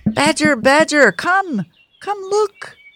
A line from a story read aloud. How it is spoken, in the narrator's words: cried Red Squirrel, Dormouse, and Weasel